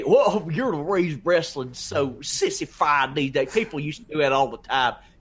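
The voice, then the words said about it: Put-on Southern accent, mocking voice. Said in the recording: “whenever you like do the, you know, I'm an idiot little thing you do, they always have a Southern accent?”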